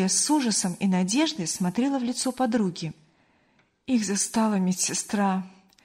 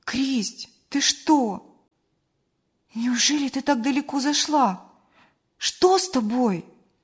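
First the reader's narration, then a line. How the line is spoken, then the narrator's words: Exclaimed. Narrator (Russian): воскликнула Мария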